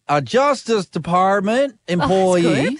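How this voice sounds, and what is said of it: Put-on Texan accent, George Bush-like. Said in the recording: “Can you put on a Texan accent? ... That sounds like George Bush. ... I was trying to get a McConaughey. ... a bit lower”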